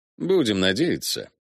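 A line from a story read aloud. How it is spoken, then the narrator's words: Grunted. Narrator (Russian): буркнул Рано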